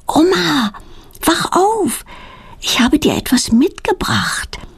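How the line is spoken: Whisper. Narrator (German): Petronella flüstert

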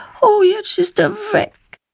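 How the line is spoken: Sad remark. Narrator (German): stellt sie traurig fest

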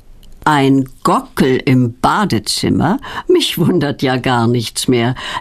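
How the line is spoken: Laughing. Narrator (German): lacht Petronellas Onkel Berti

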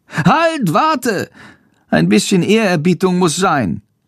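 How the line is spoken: Calling out. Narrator (German): ruft Chandor

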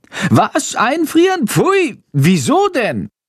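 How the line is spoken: Horrified shriek. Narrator (German): kreischt Chando entsetzt

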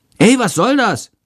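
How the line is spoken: Student calling out. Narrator (German): ruft der Schüler unter ihm

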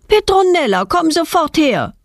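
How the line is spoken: Mother calling from window. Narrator (German): ruft ihre Mutter aus dem Wohnzimmerfenster

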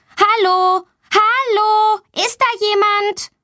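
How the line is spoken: Calling out loudly. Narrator (German): Sie ruft laut

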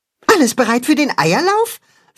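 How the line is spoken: Excited question. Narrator (German): fragt Max aufgeregt

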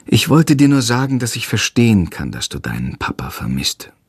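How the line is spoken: Sighing. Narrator (German): sagt sie schließlich und seufzt

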